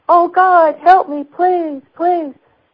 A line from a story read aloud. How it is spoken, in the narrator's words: the voice that was screaming